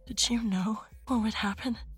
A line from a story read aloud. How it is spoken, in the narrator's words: I whispered, praying the answer would be no